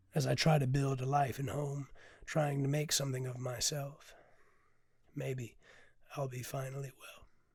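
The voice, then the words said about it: Very hoarse, raspy voice. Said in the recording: “I apologize about my voice. I'm very hoarse today. I sound like I smoked seven packs of cigarettes.”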